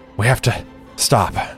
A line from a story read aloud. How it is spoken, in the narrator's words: panted, slowing her pace